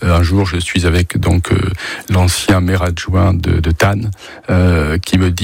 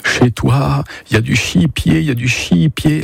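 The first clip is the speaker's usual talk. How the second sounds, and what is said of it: Strong put-on regional French accent. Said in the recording (French): “L'accent, l'accent très prononcé.”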